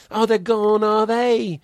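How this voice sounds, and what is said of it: Put-on British accent. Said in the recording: “I want to be British ... you don't have to be British to do this ... it sounds better in the accent”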